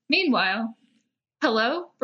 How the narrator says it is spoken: Brenna said nervously

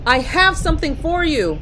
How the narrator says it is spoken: she shouted

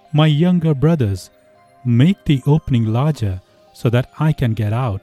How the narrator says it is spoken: cried Manabozho

